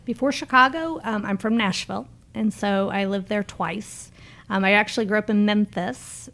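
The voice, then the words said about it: Slight Southern accent, Canadian mix. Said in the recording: “You have a little bit of a southern accent... You have like a Canadian Southern twang... Combined in one.”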